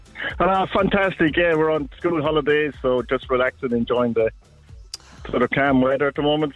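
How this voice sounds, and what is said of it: Irish accent. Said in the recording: “you know I love an Irish accent.”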